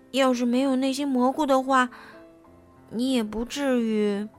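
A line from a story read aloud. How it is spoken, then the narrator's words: Guilty muttering. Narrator (Chinese): 贝里奥知道是自己做错了事儿，嘀咕着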